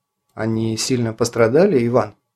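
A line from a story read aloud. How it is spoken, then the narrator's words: Quiet perceptive question. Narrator (Russian): с неожиданной проницательностью тихо спросил Кронин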